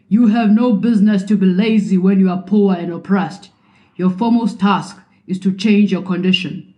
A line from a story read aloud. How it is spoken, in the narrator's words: Mahodi Ramopo, who bellowed at a morning school assembly